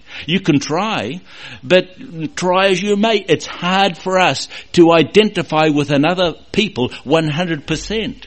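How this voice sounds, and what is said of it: New Zealand English accent. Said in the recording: “probably you notice my accent ... we're still from New Zealand”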